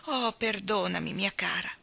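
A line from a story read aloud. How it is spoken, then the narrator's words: Apologetic reply. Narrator (Italian): lo zio Dodger replicò in tono di scusa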